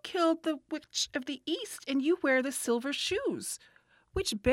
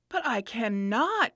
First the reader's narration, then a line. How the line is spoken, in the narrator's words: exclaimed Dorothy, greatly surprised